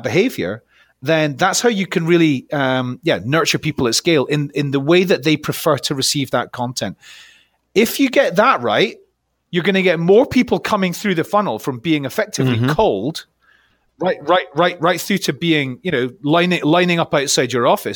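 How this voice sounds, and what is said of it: Noticeable regional accent. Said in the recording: “if you're hearing ... accent ... this is not the train spotting podcast”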